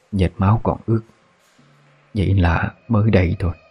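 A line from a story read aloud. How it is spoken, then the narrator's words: Old woman whispering. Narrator (Vietnamese): Bà thì thầm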